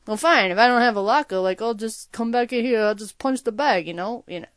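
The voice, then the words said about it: Imitates another person's voice. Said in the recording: “I don't do a very good Sloan impression”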